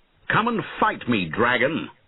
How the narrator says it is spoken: shouted

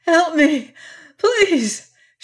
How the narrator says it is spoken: she gasped

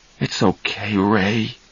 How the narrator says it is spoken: Charlie said softly to his brother

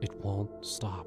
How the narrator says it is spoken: whispered

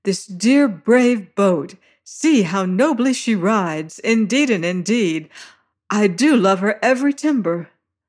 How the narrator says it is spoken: cries she, as we rose on a hissing wave-crest

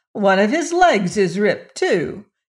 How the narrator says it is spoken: she exclaimed

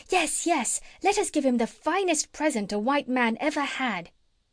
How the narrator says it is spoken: they all cried out, making a great noise

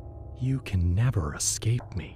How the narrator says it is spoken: he whispered

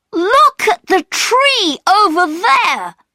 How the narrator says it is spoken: cried Peter

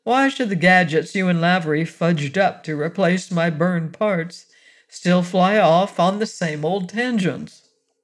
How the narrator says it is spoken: Hastings groaned

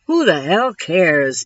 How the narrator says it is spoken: Diedrich muttered

